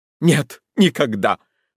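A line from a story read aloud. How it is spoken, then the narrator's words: Shuddering exclamation. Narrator (Russian): воскликнула она, содрогаясь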